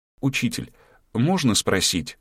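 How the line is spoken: Timid start. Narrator (Russian): робко начала

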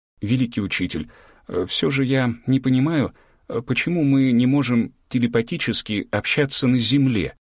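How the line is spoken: Hesitant, halting. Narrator (Russian): Начала неуверенно, с трудом подбирая правильные слова и делая паузы

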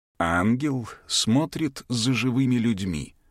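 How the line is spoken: Gentle reply. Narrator (Russian): мягко отозвался хранитель знаний

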